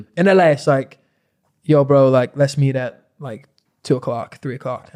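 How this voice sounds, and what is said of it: Put-on LA American accent. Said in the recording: “I'm making myself fucking cringe doing an accent”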